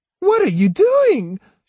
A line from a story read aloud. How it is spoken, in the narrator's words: she cried